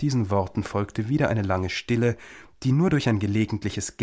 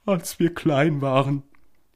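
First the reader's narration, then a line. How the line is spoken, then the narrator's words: Continuing with occasional sobs. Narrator (German): fuhr die falsche Suppenschildkröte schließlich fort, sie schluchzte nur noch gelegentlich einmal auf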